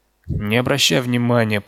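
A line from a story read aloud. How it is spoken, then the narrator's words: Moaning. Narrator (Russian): простонал Стэн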